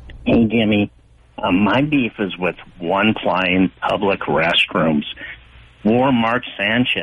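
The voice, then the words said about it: Creepy fake disguised voice. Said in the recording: “creepy fake voice”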